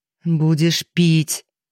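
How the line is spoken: Angry self-command. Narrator (Russian): зло приказала она себе

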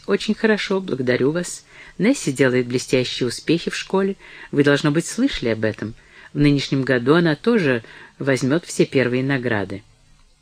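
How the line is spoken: Forced calm reply. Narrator (Russian): Броуди заставил себя спокойно ответить

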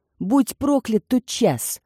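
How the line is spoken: Muttered through gritted teeth. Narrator (Russian): процедил сквозь зубы Диего

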